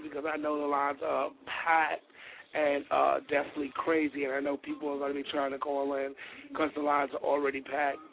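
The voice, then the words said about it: Hoarse, strained lost voice. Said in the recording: “I'm sorry about my voice. I lost my voice,”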